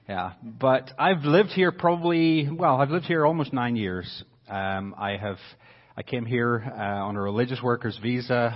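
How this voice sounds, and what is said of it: Faint Northern Irish accent. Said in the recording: “my accent is changing ... I've still got a bit of it ... if you hear the Northern Irish accent coming through”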